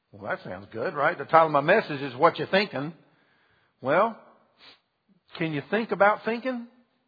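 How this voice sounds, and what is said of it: Southern American accent. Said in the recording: “Did you hear my Southern come out here?”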